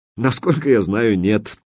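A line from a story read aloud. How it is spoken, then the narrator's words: Laughing. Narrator (Russian): рассмеялся Смайли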